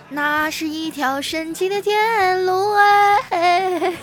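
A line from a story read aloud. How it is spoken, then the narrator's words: Loud singing. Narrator (Chinese): 小明啊，噌的一下站起来了，大声唱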